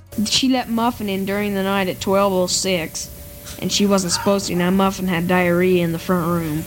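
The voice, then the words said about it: Child with almost southern accent. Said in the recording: “I've adopted a a strangely almost southern accent at age 12”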